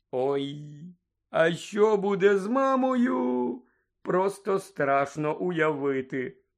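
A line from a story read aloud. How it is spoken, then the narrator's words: Groan. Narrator (Ukrainian): простогнав Джордж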